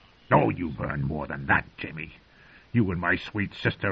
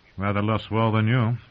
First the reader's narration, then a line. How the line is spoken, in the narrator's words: Jaime said bitterly